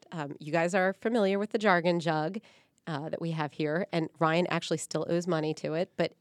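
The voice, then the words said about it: Hoarse, gravelly voice. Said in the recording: “my voice is not very good today because I have a cold. ... I'm going to have grovelly voice going on today”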